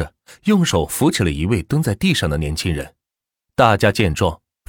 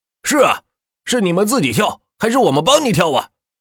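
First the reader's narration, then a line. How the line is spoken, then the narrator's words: Crowd shouting. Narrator (Chinese): 一群人大声的喊着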